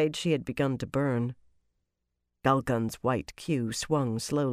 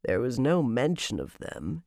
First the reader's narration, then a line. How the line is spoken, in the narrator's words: he said dryly